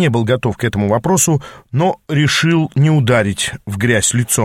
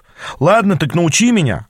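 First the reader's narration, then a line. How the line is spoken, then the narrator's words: Snapping retort. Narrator (Russian): огрызнулся я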